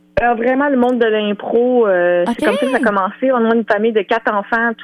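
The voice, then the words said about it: Regional Quebec French accent. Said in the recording (French): “le petit accent là, que vous entendez, qui est un mélange de Châteauguay puis de Desrochers”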